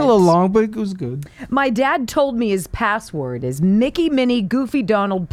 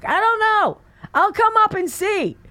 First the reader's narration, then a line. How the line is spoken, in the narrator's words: 84 yells back